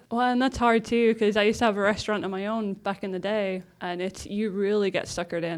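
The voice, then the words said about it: English accent. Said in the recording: “Where's that accent from? ... I don't know what accent's going to come out. So originally from England.”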